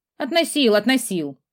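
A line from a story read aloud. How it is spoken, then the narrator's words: Grumbling mutter. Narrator (Russian): пробурчал череп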